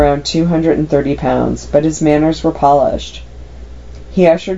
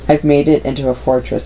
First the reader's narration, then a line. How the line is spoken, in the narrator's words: he said